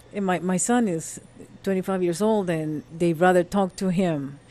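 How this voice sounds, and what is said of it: Non-native English accent. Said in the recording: “I know I have an accent”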